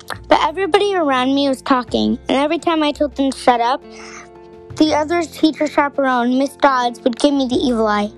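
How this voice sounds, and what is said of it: Strained, sore-throated voice. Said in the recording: “my voice is kind of hurting ... my throat hurts”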